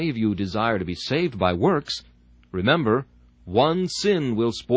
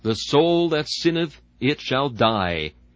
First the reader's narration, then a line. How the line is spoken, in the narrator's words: It thunders out without the slightest mitigation